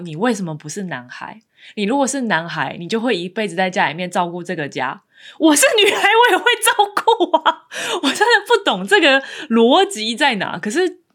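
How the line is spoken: Exclaiming with feeling. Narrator (Chinese): 他就会忍不住感叹说

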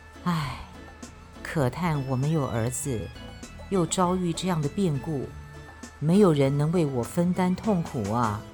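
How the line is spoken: Sighing. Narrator (Chinese): 淳于意叹气地说

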